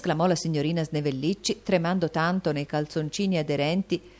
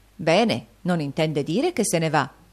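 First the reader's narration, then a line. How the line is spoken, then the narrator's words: Exclamation. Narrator (Italian): esclamò la signora Gradden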